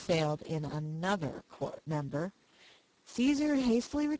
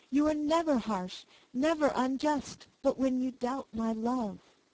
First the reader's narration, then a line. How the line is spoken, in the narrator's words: cried the soldier with warmth